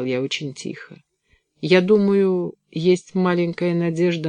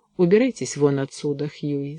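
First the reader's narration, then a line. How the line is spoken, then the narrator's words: Tired. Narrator (Russian): сказал устало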